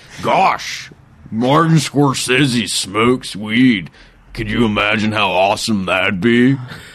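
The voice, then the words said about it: Imitates another person's voice. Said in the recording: “My Seth Rogen impression.”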